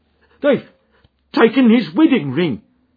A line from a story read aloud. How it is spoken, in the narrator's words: gasped